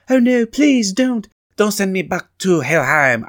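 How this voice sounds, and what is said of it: Put-on accent for a character. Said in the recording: “I don't know why I'm doing different accents.”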